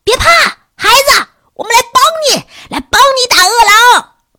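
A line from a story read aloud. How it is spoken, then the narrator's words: Shouting while running. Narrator (Chinese): 他们一边跑还一边喊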